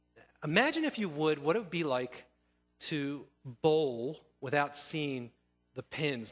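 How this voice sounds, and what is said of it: Strong accent. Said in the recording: “my accent's real bad”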